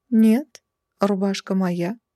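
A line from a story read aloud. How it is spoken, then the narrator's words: Calm reply. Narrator (Russian): спокойно откликнулась я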